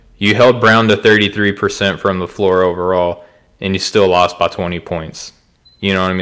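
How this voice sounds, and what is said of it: Southern American (Arkansas) accent. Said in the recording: “I'm from Arkansas. If my accent doesn't give it away”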